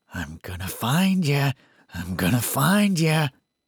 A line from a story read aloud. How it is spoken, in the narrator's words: Through laughing, the boy quietly repeated